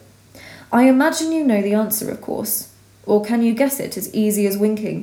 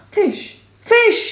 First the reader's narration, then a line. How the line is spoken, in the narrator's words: he cried